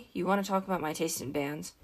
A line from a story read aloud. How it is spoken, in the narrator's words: He sighed